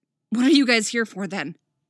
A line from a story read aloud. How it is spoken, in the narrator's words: She barks aggressively